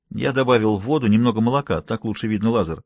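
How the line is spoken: Plain. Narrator (Russian): сказал Югава

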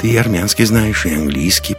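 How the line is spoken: Mumble. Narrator (Russian): пробормотал Лекс

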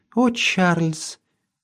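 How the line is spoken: Quiet. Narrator (Russian): тихо добавила

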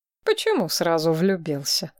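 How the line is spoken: Wry snort. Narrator (Russian): хмыкнул Линнард

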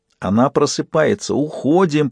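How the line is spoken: Hiss. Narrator (Russian): прошипел Фист

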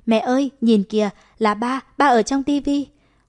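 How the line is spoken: Excited. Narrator (Vietnamese): Du Du phấn khởi nói

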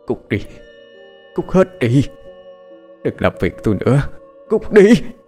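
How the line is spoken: Through gritted teeth. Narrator (Vietnamese): nghiến răng mà nói

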